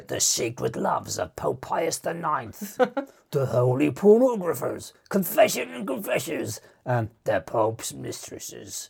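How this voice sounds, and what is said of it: Put-on English accent. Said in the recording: “you got to read these in an English accent.”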